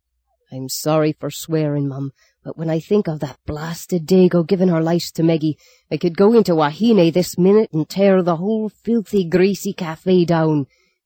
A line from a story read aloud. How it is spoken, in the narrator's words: he exploded